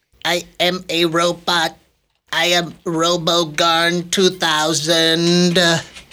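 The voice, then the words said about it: Robot character voice. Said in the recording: “good robot impression... That was pretty good.”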